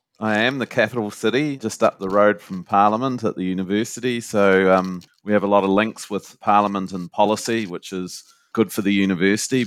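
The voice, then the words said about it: New Zealand accent. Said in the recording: “it's very nice to have a different accent on our podcast series ... a New Zealand accent”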